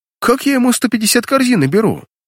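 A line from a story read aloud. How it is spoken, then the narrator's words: Indignant. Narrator (Russian): возмущенно начал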